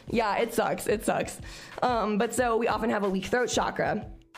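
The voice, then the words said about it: Naturally scratchy voice. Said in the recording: “I have a naturally kind of scratchy voice. And on my period, I have no voice.”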